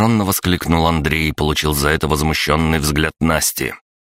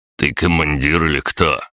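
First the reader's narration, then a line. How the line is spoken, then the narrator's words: Mocking snort. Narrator (Russian): хмыкнул Владимир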